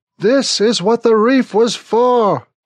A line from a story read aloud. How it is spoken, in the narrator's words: Smithick yells into my ear